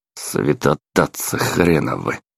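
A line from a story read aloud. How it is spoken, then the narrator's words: Grumbling. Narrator (Russian): проворчал я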